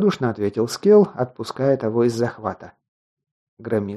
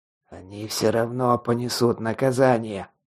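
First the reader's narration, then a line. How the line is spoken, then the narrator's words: Hoarse rasp. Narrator (Russian): прохрипел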